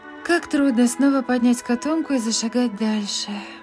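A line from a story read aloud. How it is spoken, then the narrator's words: Sighing. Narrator (Russian): вздохнула Мэг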